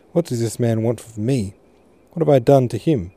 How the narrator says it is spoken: She said, her voice full of distress

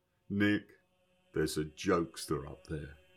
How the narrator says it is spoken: He roared with laughter, then exclaimed

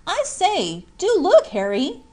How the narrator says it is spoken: cried Jack

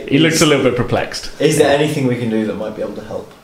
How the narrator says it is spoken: Laugh to myself and then say

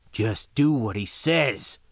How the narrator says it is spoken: growled into his collar

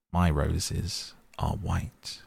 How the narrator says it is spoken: it answered

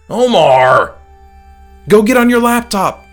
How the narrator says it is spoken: his voice called

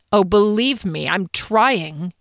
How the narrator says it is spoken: sneered

